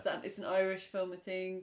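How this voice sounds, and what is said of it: Put-on Irish accent. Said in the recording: “Irish, just then an Irish accent ... that's an authentic accent”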